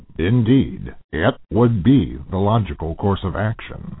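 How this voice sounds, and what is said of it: Imitated Captain Spock character voice. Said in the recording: “celebrity voice impersonation ... Captain Spock here loves them”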